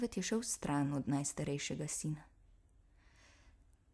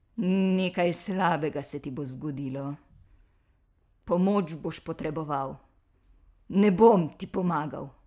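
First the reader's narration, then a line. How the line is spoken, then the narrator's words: Angry growl. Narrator (Slovenian): Medved je jezno zabrundal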